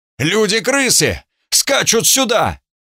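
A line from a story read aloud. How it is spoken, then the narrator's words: Shout. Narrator (Russian): Я прокричал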